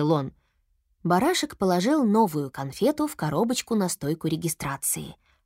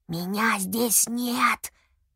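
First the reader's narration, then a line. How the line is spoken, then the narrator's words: Whispered declaration. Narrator (Russian): шепотом заявил он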